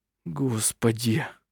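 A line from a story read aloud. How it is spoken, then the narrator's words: Whispered. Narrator (Russian): прошептал Хейке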